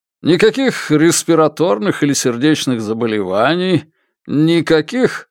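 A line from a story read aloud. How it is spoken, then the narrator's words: Sudden giggle. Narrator (Russian): Хан Вэймин внезапно хихикнул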